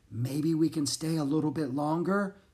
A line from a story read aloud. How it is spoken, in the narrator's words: she said under her breath